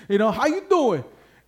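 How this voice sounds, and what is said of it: Put-on Italian-American accent. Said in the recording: “I'm not Rocky or anything, but I busted out my Italian accent.”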